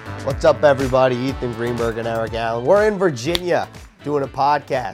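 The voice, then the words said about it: Rough, strained, unwell-sounding voice. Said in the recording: “your voice sounds awful”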